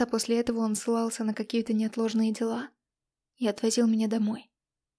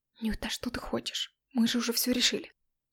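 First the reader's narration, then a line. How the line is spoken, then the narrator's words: Whisper. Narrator (Russian): шепотом говорил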